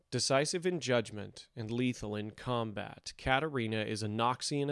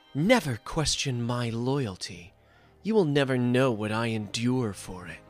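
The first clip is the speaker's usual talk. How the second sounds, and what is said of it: Poor impression of a character's voice. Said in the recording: “my terrible impression”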